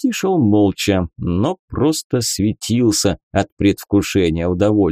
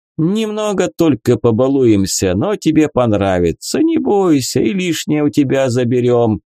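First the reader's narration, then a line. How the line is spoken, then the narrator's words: Laughing. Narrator (Russian): засмеялся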